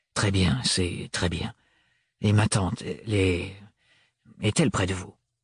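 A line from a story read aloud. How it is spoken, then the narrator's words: Confused stammering. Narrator (French): des bégaiements aussi confus dans la bouche de Thorne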